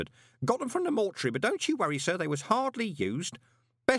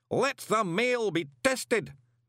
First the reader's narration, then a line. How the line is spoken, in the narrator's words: bellowed the all-commanding voice